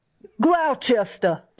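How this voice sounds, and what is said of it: Weak attempt at Boston accent. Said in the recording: “do a Boston accent? It's not very good.”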